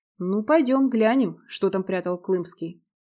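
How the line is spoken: Snorting. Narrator (Russian): хмыкнул Радмир

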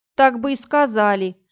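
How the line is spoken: Grumbling. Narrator (Russian): пробурчала Иви

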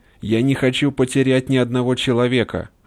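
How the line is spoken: Yelling. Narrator (Russian): орал

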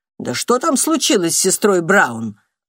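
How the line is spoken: Snorting. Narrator (Russian): фыркнула сестра Евангелина

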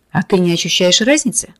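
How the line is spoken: Condescending snort. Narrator (Russian): Медина снисходительно хмыкнул

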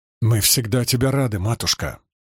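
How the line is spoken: Sharp clipped words. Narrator (Russian): резко проговаривая слова, ответил Джорей

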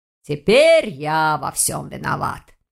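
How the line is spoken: Grumbling. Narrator (Russian): проворчал ректор

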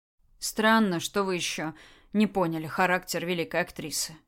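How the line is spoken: Sad. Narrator (Russian): грустно сказал Микола

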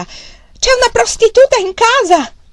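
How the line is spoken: Old man's broken, shrill shout. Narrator (Italian): il vecchio gridò con la sua voce rotta e stridula

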